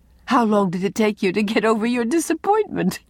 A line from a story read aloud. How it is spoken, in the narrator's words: asked Anne, amid her laughter